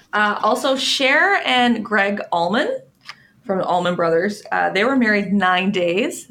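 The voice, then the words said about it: Canadian Newfoundland accent. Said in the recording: “you're so Canadian ... I also have an accent ... She's from Newfoundland”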